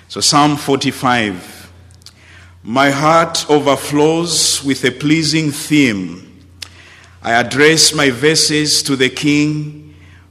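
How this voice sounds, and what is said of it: Southern African accent. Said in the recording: “I speak with an unmistakable Southern accent ... Southern, yes, not from the deep south of the USA, but from the deep south of Africa”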